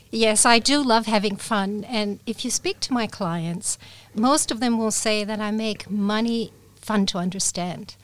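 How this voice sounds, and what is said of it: Slight American English accent. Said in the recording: “my slight American accent, which comes from having grown up in Japan where the English spoken was American ... I love your accent ... it's quite hard to put your finger on”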